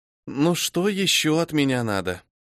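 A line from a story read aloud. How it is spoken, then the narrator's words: Weary heavy sigh. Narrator (Russian): Тяжело вздохнула я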